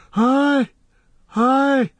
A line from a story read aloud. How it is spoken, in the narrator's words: wailed Legolas